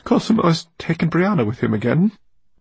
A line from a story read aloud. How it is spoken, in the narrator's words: she said in a broken voice